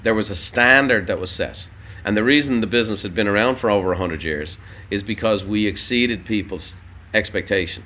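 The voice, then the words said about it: Irish accent. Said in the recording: “a bit of an accent ... my Irish brother ... an immigrant from Dublin, Ireland”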